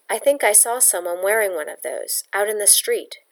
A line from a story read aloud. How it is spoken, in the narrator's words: she said quickly